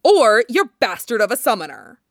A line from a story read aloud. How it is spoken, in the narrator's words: he snarls